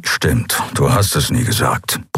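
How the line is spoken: Grumbling. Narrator (German): brummte

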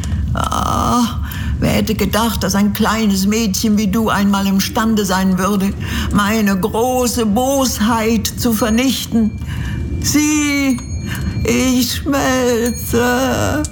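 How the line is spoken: Agonized witch whimpering. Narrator (German): wimmerte die Hexe unter Qualen

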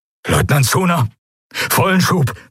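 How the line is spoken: Breathless urgent command. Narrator (German): begann der Admiral atemlos

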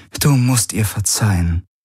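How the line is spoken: Soft sigh. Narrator (German): Ylana seufzte leise

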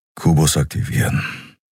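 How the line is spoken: Quiet. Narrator (German): sagte er leise

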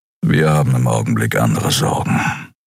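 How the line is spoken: Gruff mutter. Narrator (German): brummte

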